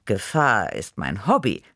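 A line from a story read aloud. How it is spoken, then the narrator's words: Pleased purr. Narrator (German): schnurrte vergnügt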